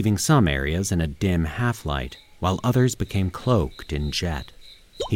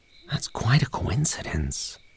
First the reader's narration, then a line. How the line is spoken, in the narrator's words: Ernie whispered